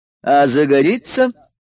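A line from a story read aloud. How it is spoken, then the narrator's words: Loud question, emperor. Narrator (Russian): громко спросил император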